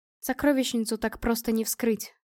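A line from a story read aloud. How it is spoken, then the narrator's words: Cold. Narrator (Russian): сказала я холодно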